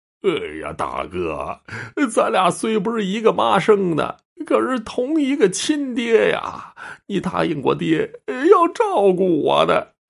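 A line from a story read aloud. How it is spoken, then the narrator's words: Bursting into tears. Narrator (Chinese): 赵老二 哇的哭出声来了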